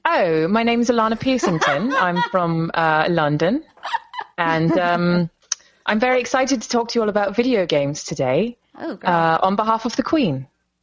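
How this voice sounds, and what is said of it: Put-on British accent. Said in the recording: “I thought you were going to do this British accent thing”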